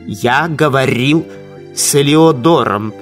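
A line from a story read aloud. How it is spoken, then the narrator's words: Plain. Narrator (Russian): сказал Феликс Юсупов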